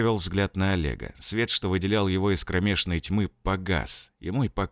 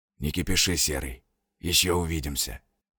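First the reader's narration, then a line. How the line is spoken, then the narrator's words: Whisper. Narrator (Russian): прошептала тьма голосом Борзова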